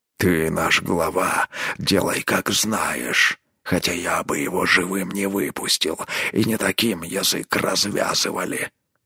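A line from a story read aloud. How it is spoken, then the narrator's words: Gruff mutter. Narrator (Russian): буркнул Рорк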